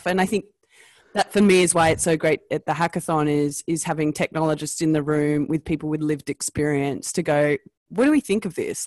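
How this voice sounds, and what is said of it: Australian accent. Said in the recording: “my Australian accent, and I'm Australian”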